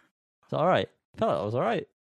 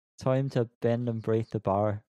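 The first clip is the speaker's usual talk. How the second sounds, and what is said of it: Put-on generic Irish accent. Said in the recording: “Can you do it in her accent ... Is it Irish? ... Irish, yeah ... Is that the wrong Irish? ... It's quite generic Irish ... I think that was quite Northern Irish”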